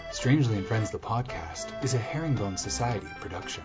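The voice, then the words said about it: Public radio announcer voice. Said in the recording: “My most NPR voice.”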